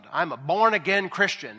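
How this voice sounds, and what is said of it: Put-on bad Southern accent. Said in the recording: “the bad Southern accent”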